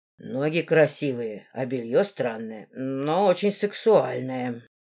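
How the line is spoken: Hoarse voice. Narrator (Russian): сипло сказал Эндага

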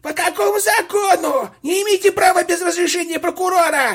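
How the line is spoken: Shrill scream. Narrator (Russian): он визгливо закричал

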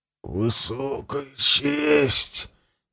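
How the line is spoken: Through clenched teeth. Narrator (Russian): Не разжимая зубов, процедил Ивент

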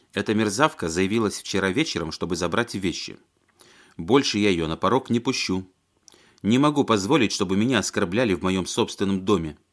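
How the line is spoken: Clipped, emphatic. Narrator (Russian): отчеканила женщина

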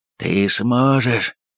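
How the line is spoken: Hoarse rasp. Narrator (Russian): прохрипел татарин

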